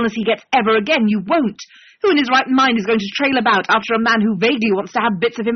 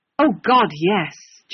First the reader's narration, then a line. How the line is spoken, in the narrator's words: John mutters